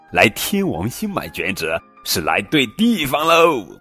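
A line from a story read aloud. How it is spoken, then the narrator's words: Laughing. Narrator (Chinese): 脸上长着触角的家伙笑着说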